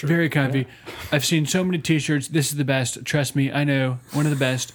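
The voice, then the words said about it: Imitates another person's voice. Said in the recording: “Not a bad impression.”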